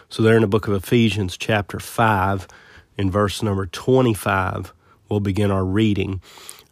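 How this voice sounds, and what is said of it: Scratchy, slightly hoarse voice. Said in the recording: “forgive my voice. I've got a little bit of a scratchy throat ... hopefully next week we'll be back to a little bit more crisp sounding”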